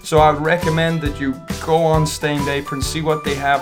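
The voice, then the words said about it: Exaggerated YouTuber presenter voice. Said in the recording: “doing your YouTube voice”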